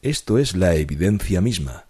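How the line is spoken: Plain. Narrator (Spanish): dijo Dupin

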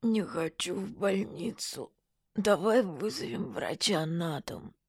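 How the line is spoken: Painful moan. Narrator (Russian): Вадик болезненно простонал

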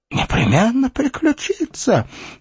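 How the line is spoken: Anguished exclamation. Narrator (Russian): воскликнул Исаак, ломая себе руки в смертельной тоске

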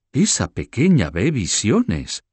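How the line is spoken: Exclaimed. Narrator (Spanish): exclamó

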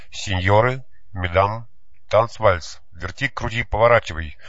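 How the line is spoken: Straining shout. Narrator (Russian): надрывался Янкель

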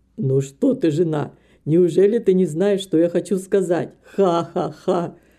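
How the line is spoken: Laughing man. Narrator (Russian): Снова засмеялся доктор

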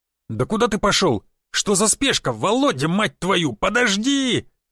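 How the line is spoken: Shouting after someone. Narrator (Russian): кричал мне вслед Шишаков

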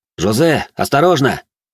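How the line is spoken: Shouting. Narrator (Russian): крикнул я Жумельяку

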